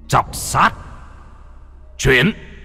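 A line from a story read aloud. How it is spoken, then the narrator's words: Joyful shout. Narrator (Vietnamese): Lâm Phong trên mặt vui mừng, trong miệng quát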